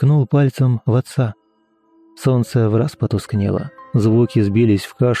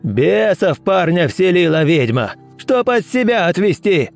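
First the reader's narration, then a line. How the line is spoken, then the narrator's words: Shout. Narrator (Russian): выкрикнул другой голос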